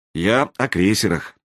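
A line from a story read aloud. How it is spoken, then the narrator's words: Sighing. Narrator (Russian): вздохнул Веригин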